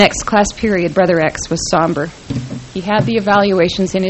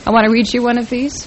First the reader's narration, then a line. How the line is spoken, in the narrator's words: said